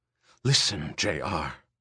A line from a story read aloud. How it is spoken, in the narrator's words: Ermgard whispered harshly in his ear